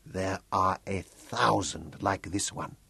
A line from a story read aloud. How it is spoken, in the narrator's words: Batso whispered